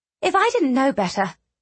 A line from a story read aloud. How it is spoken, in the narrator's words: she said, keeping her voice light